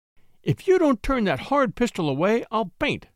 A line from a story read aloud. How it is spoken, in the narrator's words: cried femininity in collapse